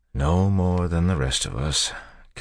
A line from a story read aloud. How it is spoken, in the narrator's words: Kelsier said with a sigh